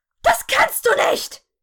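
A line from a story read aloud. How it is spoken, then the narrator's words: Shrieking. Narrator (German): kreischte sie schließlich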